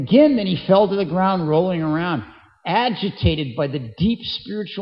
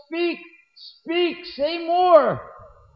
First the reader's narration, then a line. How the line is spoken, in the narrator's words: suddenly he regained consciousness, and in a very loud voice he yelled